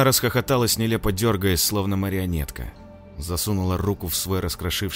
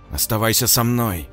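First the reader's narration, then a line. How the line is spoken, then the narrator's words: Growling. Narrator (Russian): прорычала Ира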